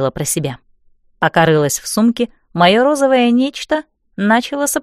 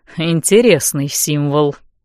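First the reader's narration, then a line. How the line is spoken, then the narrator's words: Grunt. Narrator (Russian): неожиданно хмыкнул мужчина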